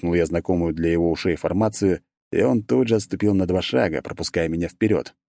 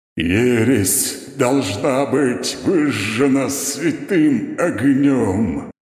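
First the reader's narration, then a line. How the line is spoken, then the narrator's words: Strained booming voice, pained. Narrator (Russian): Прогудел рыцарь с заметным трудом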